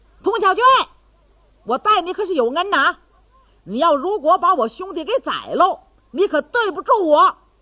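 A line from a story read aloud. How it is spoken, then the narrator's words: Shouting from rooftop. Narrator (Chinese): 唐铁牛在房上就嚷开了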